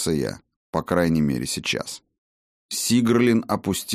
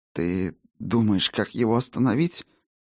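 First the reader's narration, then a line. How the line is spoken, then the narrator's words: Slightly hoarse question. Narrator (Russian): С чуть заметной хрипотцой в голосе спросила она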